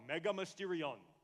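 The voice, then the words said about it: Spanish-language radio announcer voice. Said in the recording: “say it like the announcer on Univision ... I just want to talk like that guy ... the way he talks is so radio DJ ... I want that DJ voice”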